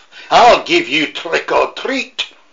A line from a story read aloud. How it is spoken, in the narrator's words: barked